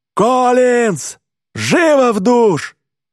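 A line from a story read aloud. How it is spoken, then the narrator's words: Yell. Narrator (Russian): Тренер Питерсон дует свисток и вопит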